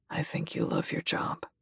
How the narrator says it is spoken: he says softly

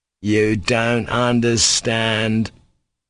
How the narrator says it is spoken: he drawled reproachfully

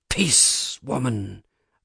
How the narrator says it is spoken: I said in a hoarse whisper

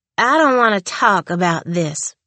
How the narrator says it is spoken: she whined petulantly

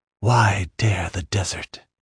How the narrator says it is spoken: She whispered urgently

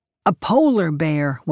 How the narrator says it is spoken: one of the boys shouted

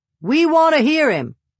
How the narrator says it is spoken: a fisherman called out

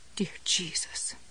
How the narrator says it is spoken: Jessie muttered

